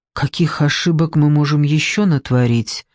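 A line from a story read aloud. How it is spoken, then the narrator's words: Quiet question. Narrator (Russian): тихо поинтересовалась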